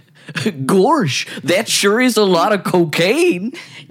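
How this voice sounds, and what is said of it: Goofy cartoon voice impression. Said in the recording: “It's child and goofy.”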